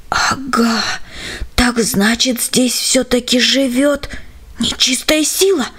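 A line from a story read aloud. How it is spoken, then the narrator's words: Almost silent breath. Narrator (Russian): выдохнул он почти беззвучно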